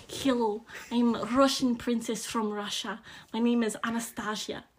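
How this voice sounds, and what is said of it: Put-on Russian accent. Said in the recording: “a really funny Russian accent”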